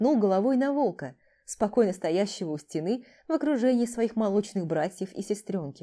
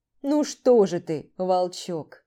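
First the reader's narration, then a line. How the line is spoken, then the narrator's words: Calm deep bass. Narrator (Russian): Мирно пробасил здоровяк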